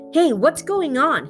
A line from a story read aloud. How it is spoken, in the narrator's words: hollered